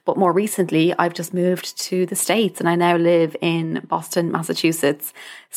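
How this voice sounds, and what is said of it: Irish accent, somewhat mixed. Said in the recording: “You may have guessed from the accent, I am Irish ... my accent is a bit all over the place”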